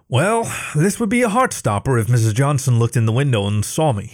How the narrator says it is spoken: thought with a chuckle

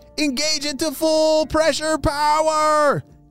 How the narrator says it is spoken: shouted Oakley

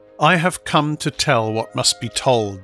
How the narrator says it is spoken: announced coldly

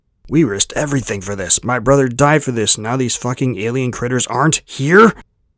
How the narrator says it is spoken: The last came out in a roar of fury and of pain so deep

